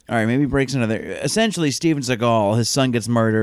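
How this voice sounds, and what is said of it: Usual voice. Nothing is said of it.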